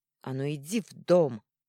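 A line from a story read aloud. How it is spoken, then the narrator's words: Angry bark. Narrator (Russian): рявкнула злобно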